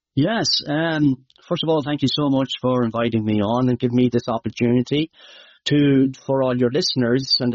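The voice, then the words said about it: Irish Midlands accent. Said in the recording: “Some of you who are Irish might know, my accent might be hard to understand”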